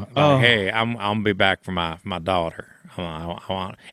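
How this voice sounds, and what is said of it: Bad Southern Texas accent. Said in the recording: “that like Texas accent ... a terrible Southern accent ... it wasn't even good”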